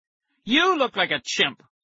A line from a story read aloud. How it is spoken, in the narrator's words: I shouted